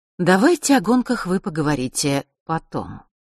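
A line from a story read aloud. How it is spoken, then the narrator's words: Soft interruption. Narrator (Russian): мягко прервала их черная королева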